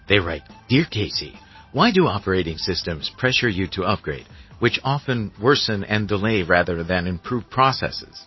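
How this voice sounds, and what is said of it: Imitates a radio countdown host voice. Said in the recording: “putting on my Casey Kasem voice”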